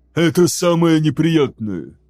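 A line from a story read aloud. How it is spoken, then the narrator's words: Breathy exhale. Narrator (Russian): выдохнул он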